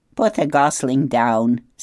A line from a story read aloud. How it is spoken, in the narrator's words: said the goose with a laugh